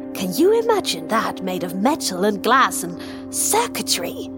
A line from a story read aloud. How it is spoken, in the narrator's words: He almost spat the last word